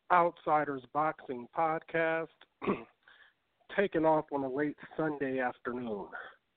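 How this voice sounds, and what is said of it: Voice sounding slightly sick. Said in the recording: “As you can hear it in my voice, I'm slightly under the weather”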